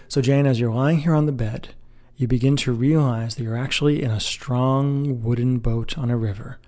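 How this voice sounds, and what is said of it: Lowered, soothing, commanding voice. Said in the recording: “lower my voice a little bit as I do this into a very soothing tone ... soothing, commanding tone”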